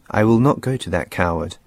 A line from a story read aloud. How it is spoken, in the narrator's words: Helen said